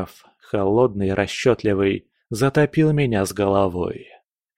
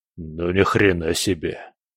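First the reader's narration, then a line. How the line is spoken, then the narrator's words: Stunned muttering. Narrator (Russian): пробормотал скала, ошарашенно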